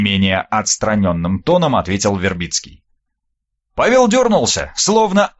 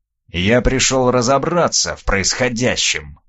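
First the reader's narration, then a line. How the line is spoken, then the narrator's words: Hiss. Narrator (Russian): прошипел он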